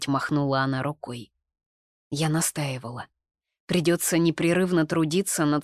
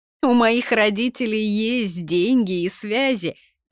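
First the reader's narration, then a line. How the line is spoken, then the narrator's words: Laughing girl. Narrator (Russian): засмеялась Тинка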